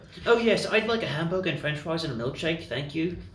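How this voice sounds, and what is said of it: Put-on British accent. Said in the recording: “hit our orders in a British accent.”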